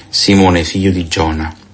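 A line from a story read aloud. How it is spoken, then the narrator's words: Plain. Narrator (Italian): gli disse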